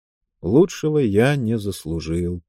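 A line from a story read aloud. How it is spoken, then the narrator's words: Sad reply. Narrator (Russian): печально ответил он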